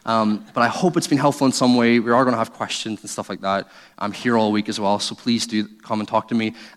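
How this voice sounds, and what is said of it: Funny accent, unusual pronunciation. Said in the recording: “the person with a funny accent who can't even say beans properly”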